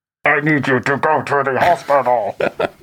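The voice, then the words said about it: Imitates a scrambled robotic voice. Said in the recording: “your best impression of what the voice scrambling sounded like... Man, that is pretty good... robo voice”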